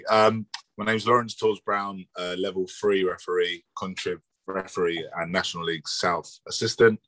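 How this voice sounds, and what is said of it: Croaky, hoarse voice. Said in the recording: “excuse my voice, I'm a bit croaky”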